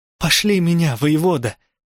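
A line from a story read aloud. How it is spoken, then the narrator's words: Hoarse pleading. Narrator (Russian): взмолилась я, и голос сразу охрип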